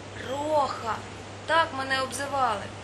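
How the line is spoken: Shrieking with laughter. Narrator (Ukrainian): Ральф аж заверещав від сміху

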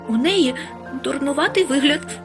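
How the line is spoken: Angrily blurted. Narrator (Ukrainian): сердито бовкнула

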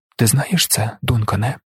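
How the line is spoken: Gentle, reasonable, as to child. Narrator (Ukrainian): Він говорив лагідно, розсудливо, як до малої дитини

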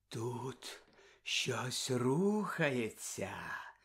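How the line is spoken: Woman's whisper. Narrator (Ukrainian): прошепотіла професорка

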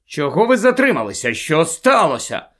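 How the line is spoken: Angry questioning. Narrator (Ukrainian): сердито почав розпитувати Люпин у Тонкс

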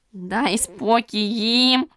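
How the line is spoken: Breathless hoarse rasp. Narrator (Ukrainian): Засапано прохрипів він

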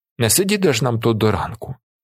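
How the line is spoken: Calm remark. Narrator (Ukrainian): Спокійно зауважує Віллі

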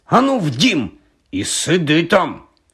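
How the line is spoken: Stern. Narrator (Ukrainian): суворо показала пані Ферфакс

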